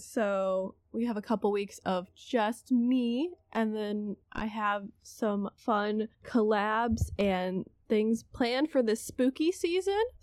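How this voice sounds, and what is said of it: Rough, unwell-sounding voice. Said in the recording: “my voice sounds bad, I'm sorry. Allergies.”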